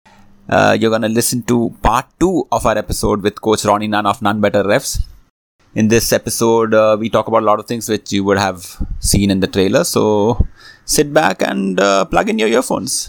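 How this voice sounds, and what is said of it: Indian English accent. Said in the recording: “your favorite NBA podcast in an Indian accent.”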